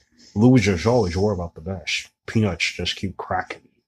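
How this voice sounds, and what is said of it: Bad Sean Connery impression. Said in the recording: “you did it in like a... Sean horrible, Connery accent ... It was a horrible Sean Connery drop”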